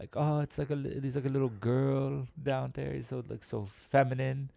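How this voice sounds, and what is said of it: Poor impression of another person's voice. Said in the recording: “bad Arnold Schwarzenegger impersonation”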